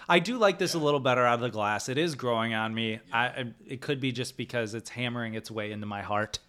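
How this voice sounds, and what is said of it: Usual voice. Nothing is said of it.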